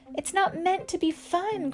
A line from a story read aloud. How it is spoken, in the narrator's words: cried Weasel